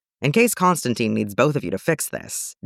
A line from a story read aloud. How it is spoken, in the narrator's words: Dick says